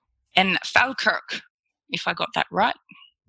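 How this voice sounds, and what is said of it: Put-on Scottish accent, slightly Irish. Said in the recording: “That was my Scottish accent. ... It was pretty good. It had a bit of Irish to it, though.”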